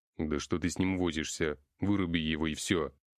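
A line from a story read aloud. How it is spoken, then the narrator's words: Harsh unfamiliar bass. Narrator (Russian): произнес кто-то резким незнакомым басом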